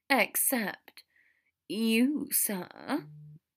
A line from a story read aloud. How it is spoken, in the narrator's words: Draco asked in a small voice